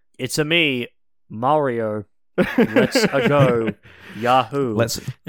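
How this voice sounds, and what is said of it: Mario video game character voice. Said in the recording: “do their best Mario or Wario impression.”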